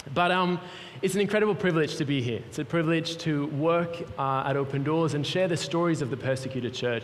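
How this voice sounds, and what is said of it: Mixed European accent. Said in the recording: “I've got an accent... my accent is all over the place... Swiss-German starts to pop up”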